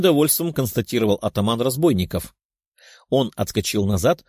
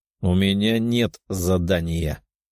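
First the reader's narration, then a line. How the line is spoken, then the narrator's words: Cold reply. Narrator (Russian): холодным голосом ответил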